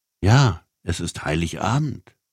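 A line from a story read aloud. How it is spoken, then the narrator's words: Plain. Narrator (German): sagte die Frau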